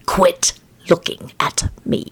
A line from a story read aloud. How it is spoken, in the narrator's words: he hissed at the bird